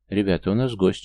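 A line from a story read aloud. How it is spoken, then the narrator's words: Calm, reassuring. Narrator (Russian): спокойно поговорил я, чтобы не вызвать панику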